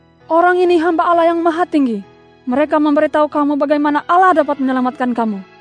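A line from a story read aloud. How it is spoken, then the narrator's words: Servant woman crying out repeatedly. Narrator (Indonesian): Hamba perempuan itu berseru-seru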